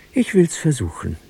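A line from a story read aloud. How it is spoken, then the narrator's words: Sighing. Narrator (German): seufzte sie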